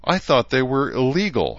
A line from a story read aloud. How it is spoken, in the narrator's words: Herzer said breathlessly